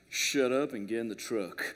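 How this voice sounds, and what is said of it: Southern American accent, John Wayne-like. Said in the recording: “a thick, lovely Southern American accent, which I'm going to attempt to do right now. It was one of those John Wayne, like ... that wasn't half bad now, was it? That was pretty good.”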